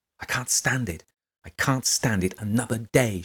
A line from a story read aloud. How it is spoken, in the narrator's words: exclaimed aloud